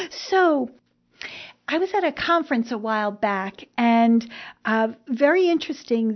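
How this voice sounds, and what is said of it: New Jersey accent. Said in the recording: “Please excuse my accent, my New Jersey accent.”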